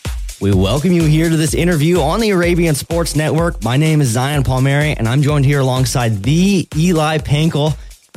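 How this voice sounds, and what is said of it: Smooth radio announcer voice. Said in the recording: “you got a nice radio voice”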